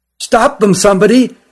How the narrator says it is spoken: cried the one who found them

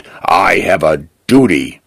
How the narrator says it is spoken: he growls

